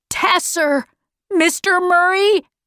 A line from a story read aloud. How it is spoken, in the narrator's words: he was shouting